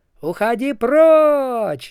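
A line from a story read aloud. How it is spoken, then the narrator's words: Wizards yelling. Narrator (Russian): заорали волшебники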